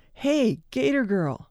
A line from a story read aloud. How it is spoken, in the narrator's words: I heard someone yell